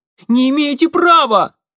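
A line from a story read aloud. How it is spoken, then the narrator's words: Thin-voiced boy's cry. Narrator (Russian): тонким голосом вскрикнул мальчишка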